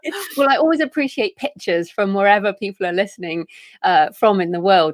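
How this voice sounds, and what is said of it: British accent. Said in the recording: “I'm in Bath in the United Kingdom, which is why I have a weird accent.”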